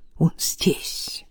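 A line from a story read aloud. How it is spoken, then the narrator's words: Rapid whisper. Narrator (Russian): Илья быстро зашептал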